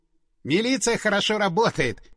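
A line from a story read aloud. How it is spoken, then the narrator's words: Amused snort. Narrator (Russian): хмыкнул Стас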